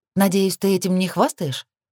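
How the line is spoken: Feigned sympathetic tone. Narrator (Russian): Поинтересовалась притворно участливым тоном

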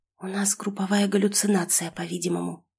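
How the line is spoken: Whispered reply. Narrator (Russian): ответила я шепотом

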